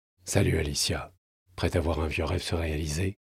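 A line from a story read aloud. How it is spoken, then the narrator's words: Murmur. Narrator (French): murmura-t-il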